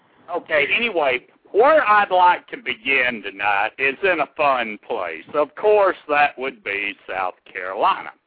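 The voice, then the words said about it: Southern American twang. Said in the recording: “I botch it with my southern twang there”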